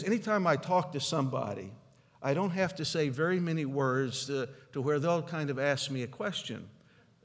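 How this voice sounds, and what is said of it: Non-local regional accent. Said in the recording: “listening to me speak is from my accent and dialect, they may not know where I'm from. They just know I'm not from there.”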